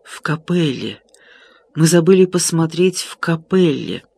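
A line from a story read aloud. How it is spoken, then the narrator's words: Painful, breathless whisper. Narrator (Russian): болезненно задыхаясь, прошептал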